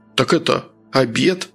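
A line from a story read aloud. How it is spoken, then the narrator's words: Mumbling. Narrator (Russian): промямлил Рыжий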